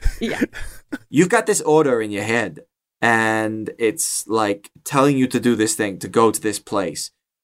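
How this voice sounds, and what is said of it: Non-American regional accent. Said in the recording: “That's a terrible accent ... this accent is not from America. It's from this continent ... It's an Aelish accent.”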